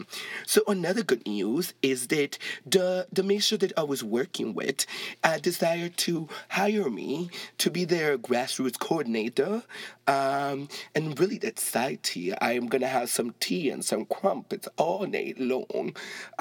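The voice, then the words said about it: Put-on British English accent. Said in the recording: “I said I was going to say it in English accent ... do I sound Jamaican or do I sound British?”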